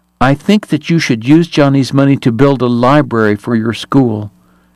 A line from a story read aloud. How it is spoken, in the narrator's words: she told the priest firmly